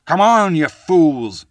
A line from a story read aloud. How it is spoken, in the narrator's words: he bellowed